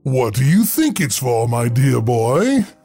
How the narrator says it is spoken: The librarian's voice boomed with a chuckle

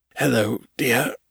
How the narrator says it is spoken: Evan said, his voice faint and shaky

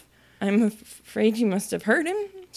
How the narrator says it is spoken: said in a trembling voice

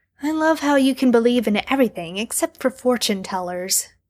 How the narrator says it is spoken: Sam scoffs

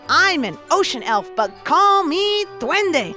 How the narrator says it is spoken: screamed over the sound of tons of children swishing through the air

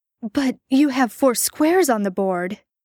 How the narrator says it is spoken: Jared blurted out, surprised

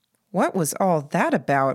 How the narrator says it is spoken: Mary asked me

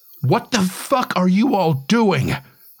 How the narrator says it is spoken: I shout so loud that a couple of the guys jump

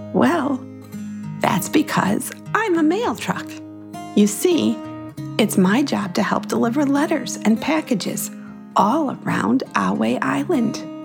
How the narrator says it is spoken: Marnie chuckled warmly and answered

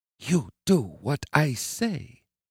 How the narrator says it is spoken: Hillary whispered in his ear

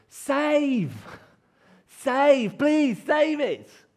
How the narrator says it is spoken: Everyone is shouting

